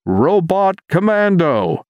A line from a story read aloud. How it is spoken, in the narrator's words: Marvin shouted into the microphone